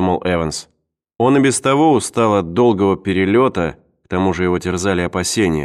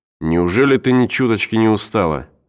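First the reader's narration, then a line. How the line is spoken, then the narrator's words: Plain. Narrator (Russian): спросил ее Эванс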